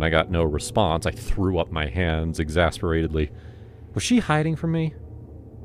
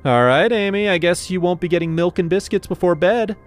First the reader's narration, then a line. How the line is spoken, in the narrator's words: I said loudly